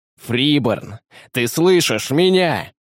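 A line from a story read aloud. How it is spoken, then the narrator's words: Desperate shout. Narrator (Russian): крикнул Девастатор, хватаясь за последнюю соломинку надежды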